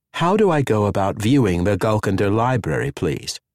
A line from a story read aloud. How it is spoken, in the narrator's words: repeated calmly